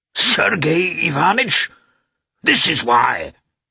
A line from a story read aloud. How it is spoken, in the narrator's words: suddenly shouted Nikolai